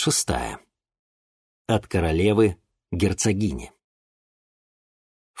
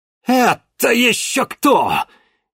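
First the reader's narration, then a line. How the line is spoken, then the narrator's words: Furious roar. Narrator (Russian): яростно взревел Геннадий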